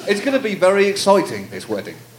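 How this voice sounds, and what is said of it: Put-on accent. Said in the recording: “Now do the accent again. ... Do the accent.”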